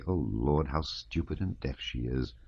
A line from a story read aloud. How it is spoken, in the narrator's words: she would mutter angrily